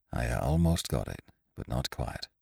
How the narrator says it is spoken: he said in a low voice

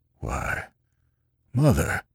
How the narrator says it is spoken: the old man gasped

